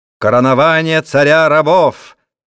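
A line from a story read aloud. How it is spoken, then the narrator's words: Shouting. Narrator (Russian): закричал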